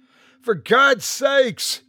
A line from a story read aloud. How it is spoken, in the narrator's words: he shouted